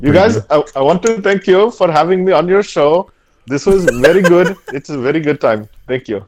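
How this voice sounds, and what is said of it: Put-on Indian accent, passable. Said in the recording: “I do a really good Indian character... Not bad... So I would say that was passable.”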